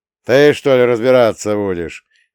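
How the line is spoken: Chuckling. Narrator (Russian): хохотнул

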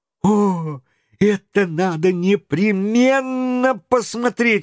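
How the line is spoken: Excited exclamation. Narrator (Russian): воскликнул Паганель

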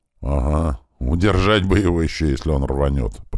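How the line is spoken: Muttering under breath. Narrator (Russian): пробурчал я себе под нос

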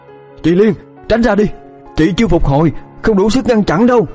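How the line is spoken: Loud shout. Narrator (Vietnamese): Khải hét lớn

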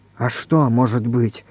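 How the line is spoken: Pale whisper. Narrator (Russian): бледнее шепнул Иван Иванович

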